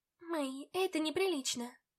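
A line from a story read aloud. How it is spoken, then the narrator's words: Whispered. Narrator (Russian): прошептала я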